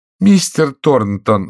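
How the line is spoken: Pleading wife. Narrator (Russian): взмолилась жена

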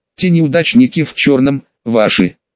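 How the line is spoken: Calm question. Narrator (Russian): спокойно спросила Эрин

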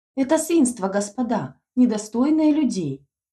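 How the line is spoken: Ringing shout. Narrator (Russian): звонко выкрикнула Эльская

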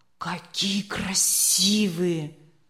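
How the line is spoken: Breathless exclamation. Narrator (Russian): выдохнул Леня

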